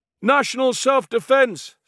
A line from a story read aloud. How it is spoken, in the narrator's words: shouted